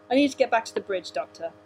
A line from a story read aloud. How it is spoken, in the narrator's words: Clark said firmly